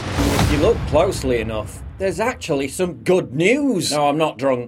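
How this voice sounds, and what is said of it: Snarky British accent, like Robin Leach. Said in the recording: “a great accent because it can be snarky and jabby ... I don't know if it's a British accent, I'm assuming ... He sounds a little like a young Robin Leach”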